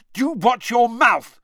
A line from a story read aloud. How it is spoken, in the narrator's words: shouted Ron